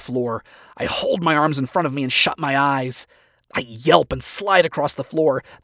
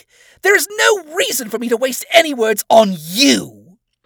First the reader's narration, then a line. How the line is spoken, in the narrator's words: She screams